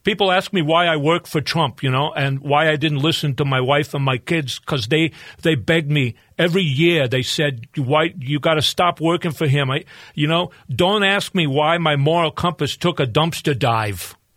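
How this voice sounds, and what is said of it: Michael Cohen impression, New York accent. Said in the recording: “right out of The Sopranos ... I can do a New York accent better than just a regular accent that's not tainted with Midwestern accent.”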